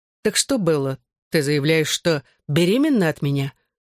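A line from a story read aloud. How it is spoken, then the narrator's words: Deadly calm question. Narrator (Russian): убийственно спокойным тоном спросил я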